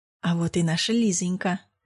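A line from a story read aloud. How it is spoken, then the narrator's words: Saccharine sweet. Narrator (Russian): приторно-ласково представил меня Петр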